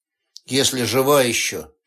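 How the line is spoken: Gloomy remark. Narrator (Russian): мрачно заметил Пирс

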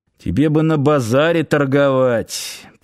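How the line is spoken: Muttered under breath. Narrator (Russian): пробурчал под нос Сошин

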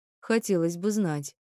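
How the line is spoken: Snorting. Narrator (Russian): хмыкнул он

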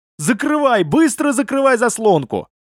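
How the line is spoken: Frightened yell. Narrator (Russian): испуганный Брага заорал

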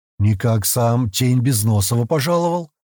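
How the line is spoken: Grumbling. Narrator (Russian): проворчал Коска

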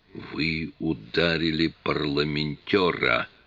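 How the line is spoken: Hissed. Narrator (Russian): прошипел он

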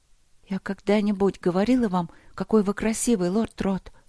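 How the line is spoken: Trembling question. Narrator (Russian): спросила она дрожащим голосом

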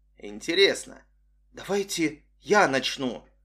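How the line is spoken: Trembling young woman. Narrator (Russian): дрожащим голосом сказала девушка

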